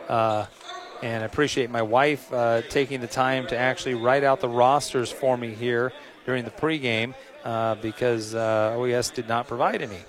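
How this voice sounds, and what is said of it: Slightly hoarse voice. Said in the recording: “if I sound a little hoarse, I am a little hoarse.”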